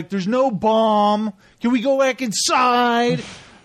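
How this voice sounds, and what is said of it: Nicolas Cage impression. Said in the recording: “doing my best Nicolas Cage impression”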